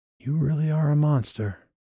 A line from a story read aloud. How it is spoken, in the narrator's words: she breathed